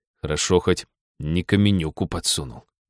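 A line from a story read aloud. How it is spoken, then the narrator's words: Grumbled mutter. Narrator (Russian): буркнул он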